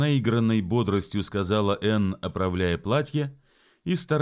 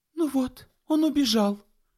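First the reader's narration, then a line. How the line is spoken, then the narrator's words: Exclamation. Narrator (Russian): воскликнула она вместо ответа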